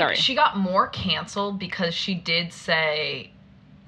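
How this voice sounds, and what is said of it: Usual voice. Nothing is said of it.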